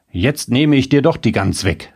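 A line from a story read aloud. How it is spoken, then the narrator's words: Calling out. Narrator (German): rief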